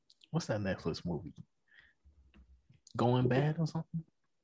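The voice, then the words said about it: Whispering. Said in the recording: “Why are you whispering it? ... Oh, I'm whispering.”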